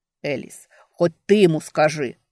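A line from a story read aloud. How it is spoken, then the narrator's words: Wailing. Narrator (Russian): взвыл Ральф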